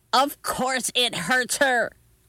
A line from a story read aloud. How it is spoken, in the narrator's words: yelled Grandma